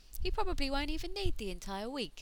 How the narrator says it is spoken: said cheerfully

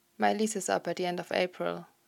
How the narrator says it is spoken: Logan says evenly, despite desperation and fear gripping at his throat

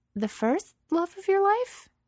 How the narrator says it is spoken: Her voice wavers a bit

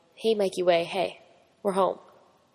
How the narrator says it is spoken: Frank saying softly

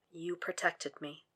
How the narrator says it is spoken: Will says softly

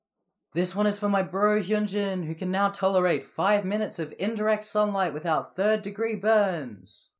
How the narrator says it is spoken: Jisung yells

